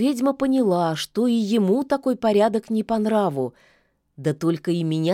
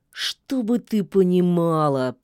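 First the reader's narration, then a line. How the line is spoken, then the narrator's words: Wolf, through gritted teeth. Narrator (Russian): процедил волк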